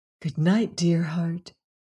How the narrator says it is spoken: said softly

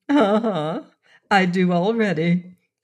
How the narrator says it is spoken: laughed rapturously

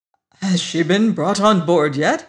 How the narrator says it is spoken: he gasped

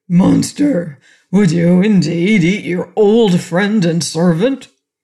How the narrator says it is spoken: The goat gave a groan and cast a reproachful look at his master as he said

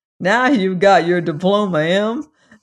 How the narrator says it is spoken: said Uncle Henry with a laugh

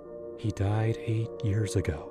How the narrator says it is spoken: whispered to myself, like a mantra, trying to shake off the chill

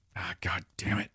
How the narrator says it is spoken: John whispered as sweat poured down his face

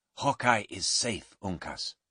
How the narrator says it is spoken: Duncan said quietly

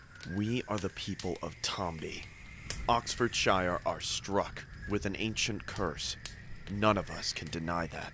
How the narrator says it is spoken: Morris said in a low voice

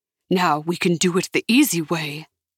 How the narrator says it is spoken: the man growled

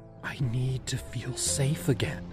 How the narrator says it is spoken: I whispered

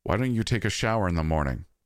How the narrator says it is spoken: she said

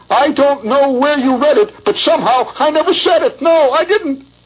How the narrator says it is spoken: He howled

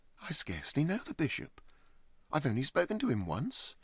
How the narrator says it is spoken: exclaimed J

